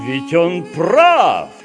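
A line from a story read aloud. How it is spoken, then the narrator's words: Shouted. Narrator (Russian): крикнул хозяин дома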